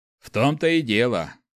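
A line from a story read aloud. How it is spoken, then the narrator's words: Smirking grunt. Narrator (Russian): хмыкнул Снег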